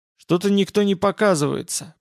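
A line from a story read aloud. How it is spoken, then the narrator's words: Grumbled. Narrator (Russian): пробурчал Олаф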